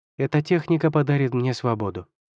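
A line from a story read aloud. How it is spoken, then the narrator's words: Calm. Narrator (Russian): спокойно сказала Хусюань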